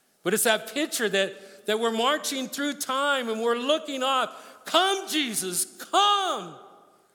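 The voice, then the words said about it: Excited yelling. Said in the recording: “Sorry if I'm yelling, I get excited.”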